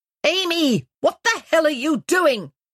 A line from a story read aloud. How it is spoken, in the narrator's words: Julia shouted in the distance